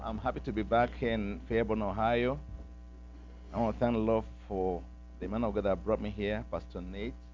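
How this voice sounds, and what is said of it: Heavy African accent. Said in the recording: “I just came back from Nigeria now, from Africa. So my accent might be pretty heavy a little bit.”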